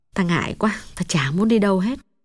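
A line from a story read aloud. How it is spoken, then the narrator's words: Sad, soft voice. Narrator (Vietnamese): Mắt Hồng thoáng buồn, nàng hạ giọng nói nhỏ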